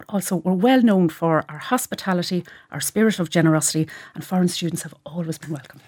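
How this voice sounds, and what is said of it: Irish Cavan accent. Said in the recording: “Cavan people ... my accent”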